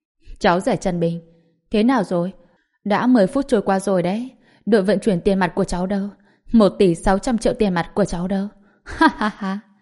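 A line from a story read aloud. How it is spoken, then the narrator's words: Mocking laughter. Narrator (Vietnamese): Giang Quốc Sương lập tức bật cười, ... chế nhạo Trần Bình, nói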